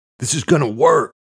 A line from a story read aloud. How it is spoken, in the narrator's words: Luke shouted to Eamon, a little too loudly